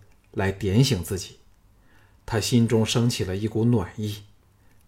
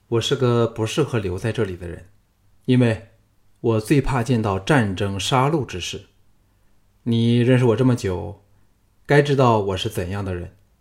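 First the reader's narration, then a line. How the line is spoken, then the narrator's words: Calm, flat. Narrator (Chinese): 项少龙淡淡的说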